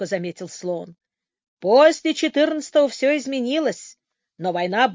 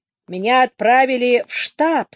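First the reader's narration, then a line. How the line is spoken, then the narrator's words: Grumpy general's voice. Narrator (Russian): сообщил генерал сварливым голосом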